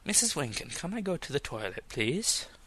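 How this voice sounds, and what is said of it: Bad attempt at British accent. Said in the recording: “you cannot do a British accent at all”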